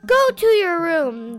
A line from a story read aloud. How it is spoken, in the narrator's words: they yelled